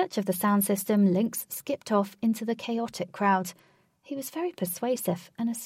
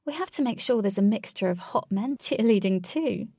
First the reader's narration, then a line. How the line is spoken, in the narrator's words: Katie said with a giggle